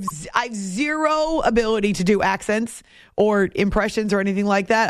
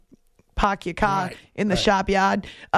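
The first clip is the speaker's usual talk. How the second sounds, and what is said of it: Attempted New England accent. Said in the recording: “sharp sounds a lot like New England ... I don't know about my Australian accent, but to me that maybe could pass in New England”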